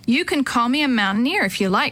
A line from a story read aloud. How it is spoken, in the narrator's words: she said